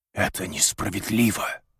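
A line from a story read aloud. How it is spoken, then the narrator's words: Whisper. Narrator (Russian): прошептал он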